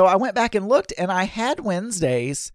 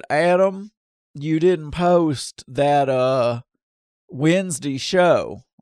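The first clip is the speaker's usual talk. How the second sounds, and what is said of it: Lower-pitched voice with Southern drawl. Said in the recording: “I don't know why I'm trying to do a Gary... his voice is a little bit lower than me, right? So I have a drawl, but not that low drawl like he has”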